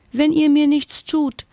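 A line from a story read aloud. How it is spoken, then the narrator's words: Squeaked. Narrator (German): piepste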